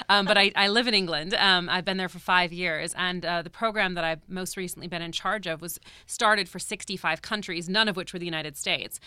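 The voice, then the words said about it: American accent. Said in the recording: “So I am American. You could probably guess by my accent.”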